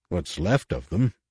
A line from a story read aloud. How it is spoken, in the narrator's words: Han muttered